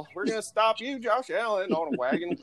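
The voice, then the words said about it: Poor put-on country accent. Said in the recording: “my country impression's bad this morning”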